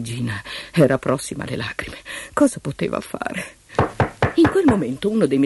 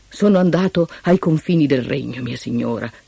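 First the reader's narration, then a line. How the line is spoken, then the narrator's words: Plain. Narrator (Italian): le disse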